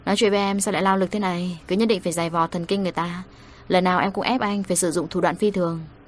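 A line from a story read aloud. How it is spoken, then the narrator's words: Weary sigh. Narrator (Vietnamese): Chị Lục Dương thở dài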